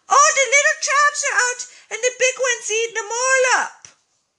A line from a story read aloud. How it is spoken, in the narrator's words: Teddy shouted from the bedroom